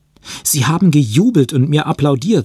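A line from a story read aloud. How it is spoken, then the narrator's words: Excited. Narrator (German): sagte er aufgeregt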